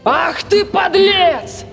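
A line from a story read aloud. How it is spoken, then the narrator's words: Monster's roar. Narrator (Russian): проревело чудище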